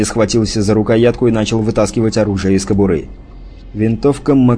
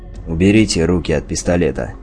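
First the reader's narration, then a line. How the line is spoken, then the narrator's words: Calm. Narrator (Russian): спокойно сказал он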